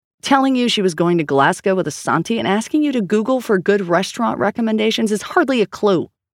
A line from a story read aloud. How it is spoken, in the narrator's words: Grace snapped